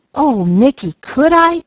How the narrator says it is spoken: cried Peaches

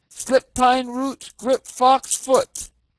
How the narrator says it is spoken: he cried

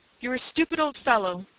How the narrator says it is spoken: he cried

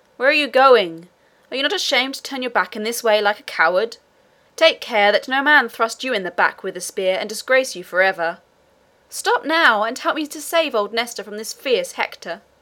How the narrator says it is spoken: cried, as loudly as he could

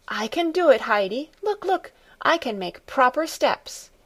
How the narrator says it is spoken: she called out

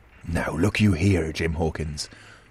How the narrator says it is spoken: he said with a steady whisper that was no more than audible

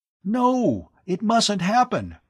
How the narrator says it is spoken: Tom cried in dismay

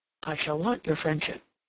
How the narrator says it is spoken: he said

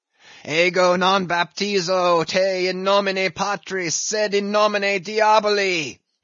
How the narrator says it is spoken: deliriously howled Ahab

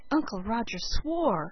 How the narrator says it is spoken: said Felicity in a shocked tone

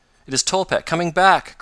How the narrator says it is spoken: cried Mr

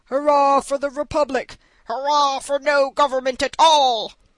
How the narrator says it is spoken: Such were the shouts

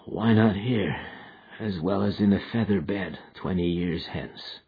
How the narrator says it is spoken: he muttered

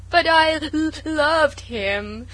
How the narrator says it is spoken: sobbed Sarah

